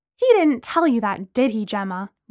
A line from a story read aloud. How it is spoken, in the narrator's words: Lana asked angrily